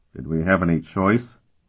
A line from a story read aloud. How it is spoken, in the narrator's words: Colton muttered